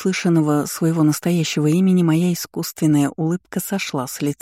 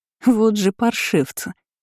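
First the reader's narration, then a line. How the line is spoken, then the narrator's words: Short laugh. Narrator (Russian): хохотнула Амая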